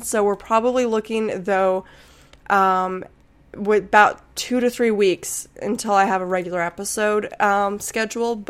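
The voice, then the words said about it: Sick, under-the-weather voice. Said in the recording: “I'm still a little under the weather. You can probably hear that in my voice. ... As soon as I fully get my voice back”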